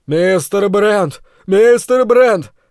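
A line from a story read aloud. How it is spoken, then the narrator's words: Yelling. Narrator (Russian): заорал мой спутник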